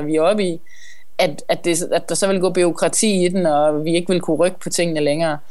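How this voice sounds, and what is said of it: Clear West Jutland Danish accent. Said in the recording (Danish): “en lettere jysk accent ... Den er ikke lettere ... den er øh, klokkeklar ... Vi er i Ringkøbing. Vi er ude vestpå”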